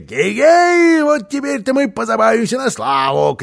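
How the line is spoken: Shouting. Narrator (Russian): кричал

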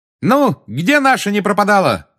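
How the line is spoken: Shouted. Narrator (Russian): крикнула Тонкс

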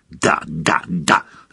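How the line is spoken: Irritated. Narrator (Russian): раздраженно ответил Слизнард

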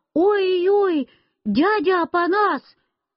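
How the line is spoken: Frightened shout. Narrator (Russian): Я испугался и закричал

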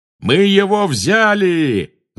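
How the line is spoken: Yelling. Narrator (Russian): завопил пожиратель смерти, оказавшийся ближе к Гарри

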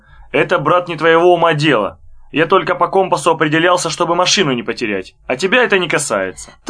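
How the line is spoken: Stern. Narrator (Russian): сказал строго

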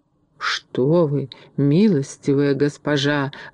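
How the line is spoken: Pleading. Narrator (Russian): взмолился Касталью

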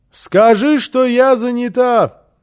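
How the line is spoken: Muffled shout through door. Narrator (Russian): крикнула в ответ Фрёкенбок из-за закрытой двери

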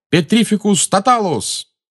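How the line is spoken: Shout. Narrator (Russian): Гарри выкрикнул

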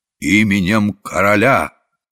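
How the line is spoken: Solemn proclamation. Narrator (Russian): царедворец торжественно провозглашая

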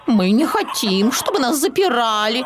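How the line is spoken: Indignant clucking. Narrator (Russian): возмущенно кудахтали они

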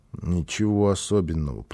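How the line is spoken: Child mumbling. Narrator (Russian): пробормотал малыш

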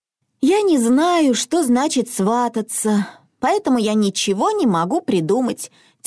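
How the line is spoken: Heavy sigh. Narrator (Russian): тяжело вздохнула Милли

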